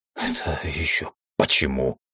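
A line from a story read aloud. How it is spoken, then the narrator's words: Words forced out. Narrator (Russian): выдавил из себя я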